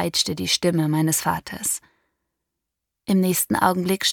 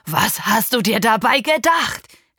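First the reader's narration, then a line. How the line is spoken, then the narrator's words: Shouted at. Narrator (German): schrie er mich an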